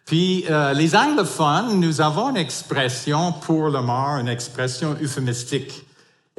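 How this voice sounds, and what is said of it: English accent speaking French. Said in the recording (French): “comme vous pouvez discerner par mon accent, je ne suis pas évidemment francophone d'origine, je suis anglophone ... je n'ai jamais perdu mon accent anglais en parlant français”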